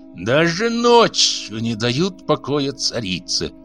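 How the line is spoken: Hoarse rasp. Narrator (Russian): прохрипела Нари

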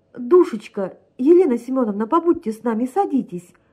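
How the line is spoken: Joyful exclamation. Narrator (Russian): радостно воскликнула Евгения Павловна

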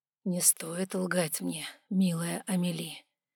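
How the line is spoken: Soft. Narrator (Russian): мягко проговорил

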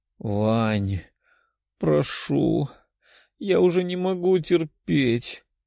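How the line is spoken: Languid woman's voice. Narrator (Russian): томным голосом произнесла девушка

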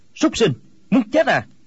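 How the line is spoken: Angry shout. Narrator (Vietnamese): Quách Tĩnh quát lên

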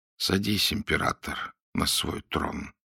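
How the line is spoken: Quiet. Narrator (Russian): тихо проговорил Дандола

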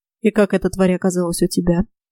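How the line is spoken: Dry question. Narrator (Russian): сухо спросила я

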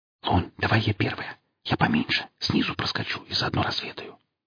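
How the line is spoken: Whisper. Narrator (Russian): шепнула Хип

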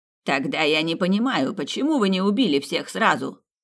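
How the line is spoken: Loud shout. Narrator (Russian): Так же громко выкрикнул Хоровиц

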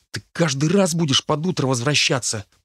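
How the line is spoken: Grumbling whisper. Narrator (Russian): проворчал шепотом

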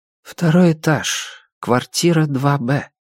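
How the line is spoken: Muffled, unctuous condoling voice. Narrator (Russian): сказал портье все тем же приглушенным, елейным голосом человека, выражающего соболезнование важному сановнику

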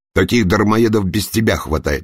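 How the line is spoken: Barking. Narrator (Russian): рявкнул Елоза

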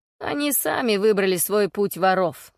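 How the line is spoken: Wry grunt. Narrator (Russian): хмыкнул Блейд

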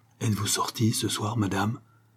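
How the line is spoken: Hushed sickroom whisper. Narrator (French): lui demanda-t-il de cette voix chuchotante qu'on prend involontairement dans la chambre des malades

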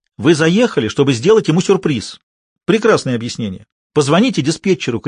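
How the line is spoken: Shouted. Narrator (Russian): крикнула она

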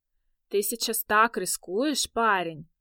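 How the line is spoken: Drawling. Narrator (Russian): Протянула она

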